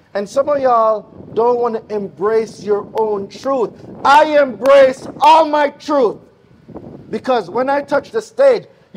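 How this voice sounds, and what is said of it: Jamaican accent. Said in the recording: “I got an accent. ... You cannot miss my accent nowhere. Why? Because I'm Jamaican.”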